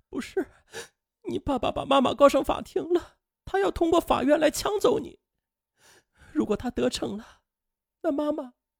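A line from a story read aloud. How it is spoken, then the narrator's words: Sobbing harder. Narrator (Chinese): 贾立敏则哭得更厉害了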